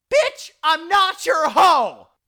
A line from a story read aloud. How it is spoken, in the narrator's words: banshee shriek from inside the room